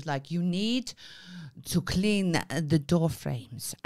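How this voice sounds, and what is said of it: Put-on foreign accent. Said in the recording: “And she was foreign. ... Got that from the impression.”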